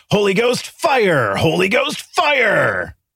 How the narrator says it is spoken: yelling

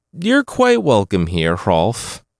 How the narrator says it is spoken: Hregvid said

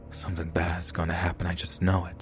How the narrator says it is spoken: I was so uneasy that I whispered to myself

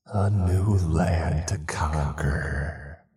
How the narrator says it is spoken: the voice hissed

